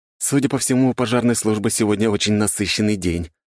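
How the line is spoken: Grumbling. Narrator (Russian): проворчал я

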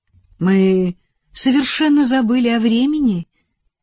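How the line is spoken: Flushed, happy explanation. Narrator (Russian): объяснила разрумянившаяся Элизабет, а глаза ее радостно сверкали

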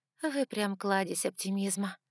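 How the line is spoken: Sarcastic sigh. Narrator (Russian): саркастично вздохнула я

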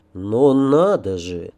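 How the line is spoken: Quiet. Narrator (Russian): тихонько произнес я

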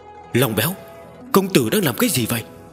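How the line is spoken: Trembling. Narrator (Vietnamese): Yên Nhi run rẩy

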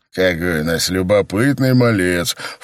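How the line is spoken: Snorted. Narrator (Russian): фыркнул Элементи

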